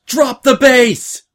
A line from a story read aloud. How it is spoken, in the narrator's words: she screamed